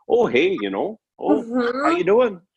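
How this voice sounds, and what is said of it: Stereotypical pleasant Canadian accent. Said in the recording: “I'm from Canada, and so our accent is, you know, the stereotypical accent is very like ... and very, very pleasant and non-threatening”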